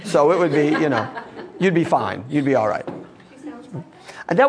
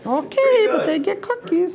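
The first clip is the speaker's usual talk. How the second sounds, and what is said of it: Imitates a grandmother's voice. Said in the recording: “that was my impression of grandmother”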